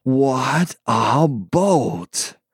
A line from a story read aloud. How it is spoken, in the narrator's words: gasped the man from the past